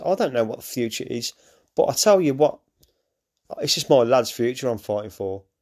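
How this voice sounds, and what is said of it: Emotional, choked-up speech. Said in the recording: “I'm getting all a bit emotional here, actually.”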